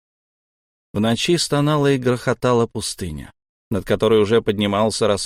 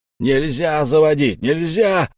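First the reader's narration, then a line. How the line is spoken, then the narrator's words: Yelling. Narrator (Russian): орал он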